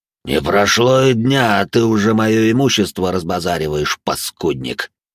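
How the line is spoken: Otherworldly voice. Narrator (Russian): Потусторонним голосом начал транслировать я свои мысли через фантома

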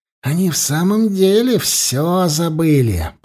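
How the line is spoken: Hissing. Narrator (Russian): прошипел он

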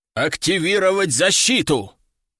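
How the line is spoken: Man's growl. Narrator (Russian): прорычал мужчина с жезлом

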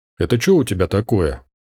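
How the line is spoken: Displeased voice. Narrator (Russian): Она, прервавшись недовольным голосом, ответила

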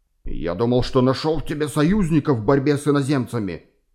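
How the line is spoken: Furious hiss. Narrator (Russian): яростно прошипел он

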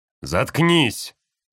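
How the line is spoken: Yelling behind wall. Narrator (Russian): заорал за стеной Роб

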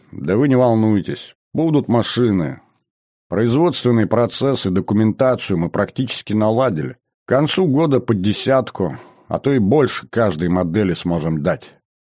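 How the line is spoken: Tired, smiling reassurance. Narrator (Russian): Синьков устало улыбнулся и сказал

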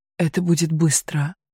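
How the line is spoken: Whispered. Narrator (Russian): прошептал

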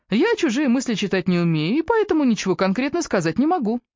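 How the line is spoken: Brisk cheerful. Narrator (Russian): бодро отреагировала Эбби

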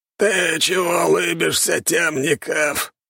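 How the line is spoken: Hoarse, familiar voice. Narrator (Russian): прохрипел он своим привычным голосом

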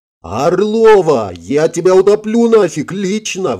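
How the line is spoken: Indignant yelling. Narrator (Russian): возмущенно, орал Игорь

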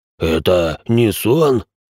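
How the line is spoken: Hoarse rasp. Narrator (Russian): просипел Рэй

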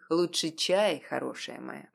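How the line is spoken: Unexpectedly soft, werewolf. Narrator (Russian): неожиданно мягко произнес оборотень

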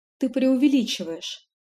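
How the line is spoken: Feigned sigh. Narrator (Russian): наигранно вздохнула

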